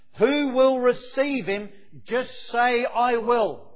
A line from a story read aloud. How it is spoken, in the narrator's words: one man shouted out from the congregation